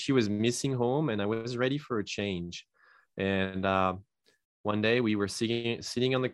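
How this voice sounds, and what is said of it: French accent. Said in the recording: “as you can probably tell from my name and accent, I'm not originally from the US. I come from France”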